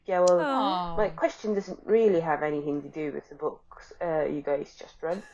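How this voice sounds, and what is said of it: Sick-sounding voice. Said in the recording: “sorry for my voice. I'm currently sick.”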